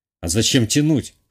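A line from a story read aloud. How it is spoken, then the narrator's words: Wry snort. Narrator (Russian): хмыкнул я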